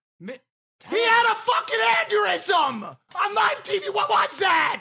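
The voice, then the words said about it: Screaming. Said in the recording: “I'm screaming in very easy to understand sentences”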